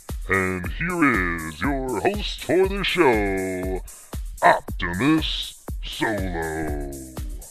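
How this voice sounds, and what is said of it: Very deep announcer voice. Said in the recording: “the guy with the really deep voice.”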